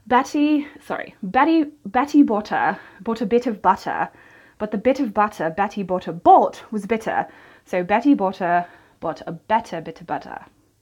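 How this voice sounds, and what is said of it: Attempted British English accent. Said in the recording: “I'm going to try Betty Botter in a British accent. British, English, standard English”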